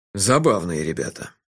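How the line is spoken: Tired smiling voice. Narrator (Russian): устало улыбнулся шеф

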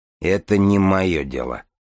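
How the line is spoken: Dry. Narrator (Russian): сухо сказал начальник изолятора

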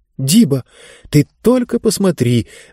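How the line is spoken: Amazed exclamation. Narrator (Russian): воскликнула изумленная Занна

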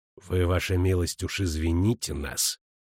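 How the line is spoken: Through gritted teeth. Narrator (Russian): процедил командир

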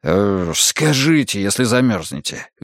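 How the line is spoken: Guilty mutter. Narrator (Russian): виновато пробормотал автостопщик

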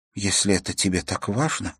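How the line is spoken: Mumble. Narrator (Russian): пробормотала она

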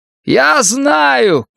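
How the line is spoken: Shout. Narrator (Russian): крикнул Дик

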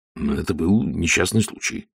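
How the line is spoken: Mutter. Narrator (Russian): пробормотал Ваймс

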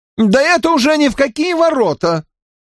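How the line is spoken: Squeal. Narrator (Russian): взвизгнул Уэйн Саффорд

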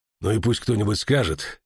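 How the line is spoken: Heavy sigh. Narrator (Russian): тяжело вздохнул он

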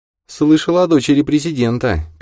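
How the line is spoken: Sad. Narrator (Russian): печально сказала Лиза

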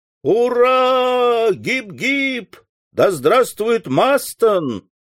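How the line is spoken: Excited crowd shouting. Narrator (Russian): закричали все присутствующие, наэлектризованные словами председателя

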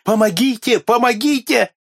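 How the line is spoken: Choking, desperate screaming. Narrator (Russian): задыхался и отчаянным голосом кричал

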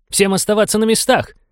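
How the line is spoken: Shouted. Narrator (Russian): выкрикнул Фрэнк

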